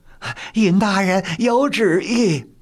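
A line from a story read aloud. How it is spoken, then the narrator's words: Abrupt, hurried announcement. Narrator (Chinese): 高乌庸闯了进来，说道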